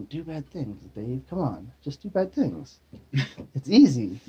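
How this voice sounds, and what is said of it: Whispered devil character voice. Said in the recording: “little demon in my shoulder whispering in my ear ... the devil was on my shoulder whispering”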